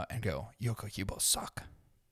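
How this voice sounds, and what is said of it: Put-on Asian accent. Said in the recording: “I don't know why I did that in an Asian accent.”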